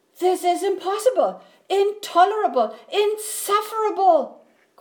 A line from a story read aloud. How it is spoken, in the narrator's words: cried Bear, shaking with anger and disbelief